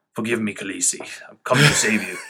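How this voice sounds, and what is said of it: Jorah impression. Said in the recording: “my Jorah impression ... I've gotten good at the impression, because I've been mocking him”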